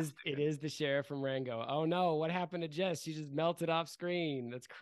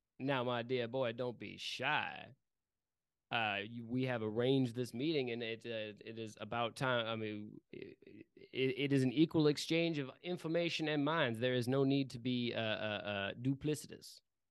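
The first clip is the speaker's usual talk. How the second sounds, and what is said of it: New character voice. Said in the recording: “new character voice? ... This is a new character. ... It's the sheriff from Rango.”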